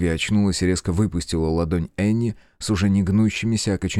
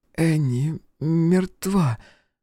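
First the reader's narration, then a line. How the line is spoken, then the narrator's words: Hoarse. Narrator (Russian): произнесла Оливия хрипло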